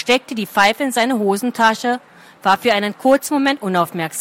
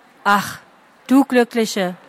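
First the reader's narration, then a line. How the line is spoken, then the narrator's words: Sighed. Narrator (German): Lien seufzte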